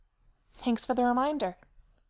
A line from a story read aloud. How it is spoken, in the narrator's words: Abby snaps calmly